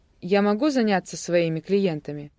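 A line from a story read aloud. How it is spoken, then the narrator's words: Displeased inquiry. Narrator (Russian): недовольным голосом поинтересовался Кадреску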